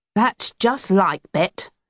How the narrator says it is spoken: grumbled

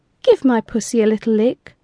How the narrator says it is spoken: she purred

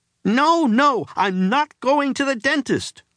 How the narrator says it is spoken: cried the boy

